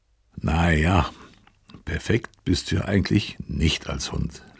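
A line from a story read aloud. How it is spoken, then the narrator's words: Soft laughing voice. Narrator (German): lachte leise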